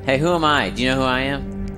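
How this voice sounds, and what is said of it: Creepy old man voice. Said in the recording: “You sound like an old pervert.”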